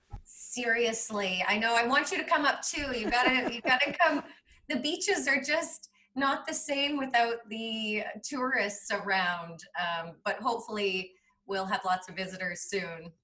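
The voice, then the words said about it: Canadian accent. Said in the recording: “you can tell by your accent, it's not Australian, it's Canadian”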